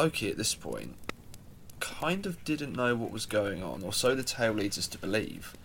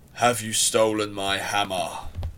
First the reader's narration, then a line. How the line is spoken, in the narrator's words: A bellow that could be heard throughout the halls of Asgard